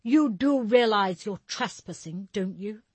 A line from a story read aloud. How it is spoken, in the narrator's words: Carl snapped back smugly